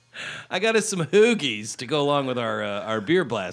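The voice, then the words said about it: Put-on Philadelphia accent. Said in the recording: “I've decided to adopt a Philadelphia accent.”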